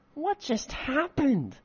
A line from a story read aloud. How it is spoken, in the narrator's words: Misa asked in a pettish, whiny voice